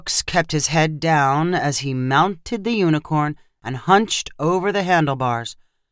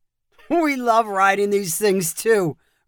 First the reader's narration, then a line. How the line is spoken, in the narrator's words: Roscoe said with a loud laugh